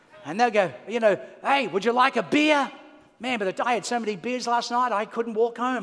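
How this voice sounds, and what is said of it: Australian accent. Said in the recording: “You know, the accent. Where are you from? I'm from Australia.”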